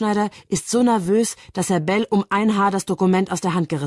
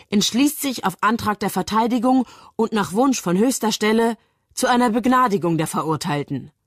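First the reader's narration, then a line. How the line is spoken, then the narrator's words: Reading aloud. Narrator (German): liest Bell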